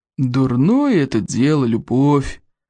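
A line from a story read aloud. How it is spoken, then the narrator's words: Gloomy. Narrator (Russian): мрачно покачал головой Стойку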